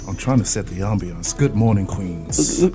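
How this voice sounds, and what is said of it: Put-on deep sexy voice. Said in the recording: “he trying to be super sexy... He putting that deep voice on”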